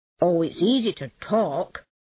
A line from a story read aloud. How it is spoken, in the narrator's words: said the mole a little crossly